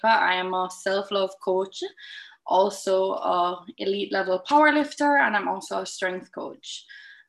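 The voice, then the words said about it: Distinctive, exotic-sounding accent. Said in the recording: “You've also got a wicked accent ... a little bit exotic”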